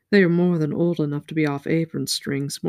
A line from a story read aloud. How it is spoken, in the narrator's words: Moraine said dryly